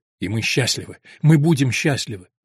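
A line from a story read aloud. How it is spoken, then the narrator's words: Exclamation. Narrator (Russian): Альберт порывисто воскликнул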